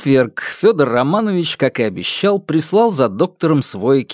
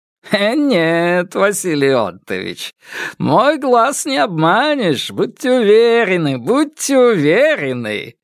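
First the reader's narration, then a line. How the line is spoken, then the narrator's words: Chuckling. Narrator (Russian): хохотнул Вансовский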